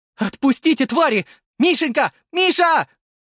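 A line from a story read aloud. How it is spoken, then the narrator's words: Mother screaming. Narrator (Russian): кричала мама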